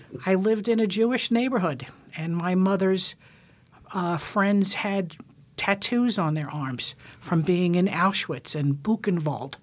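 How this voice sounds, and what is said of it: New York accent. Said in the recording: “you could maybe tell my accent is not quite Alaskan ... You're not from New York, are you? ... I am from New York.”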